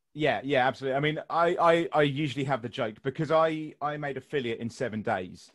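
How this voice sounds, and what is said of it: British accent close to received pronunciation. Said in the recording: “I have similar to received pronunciation ... British, English”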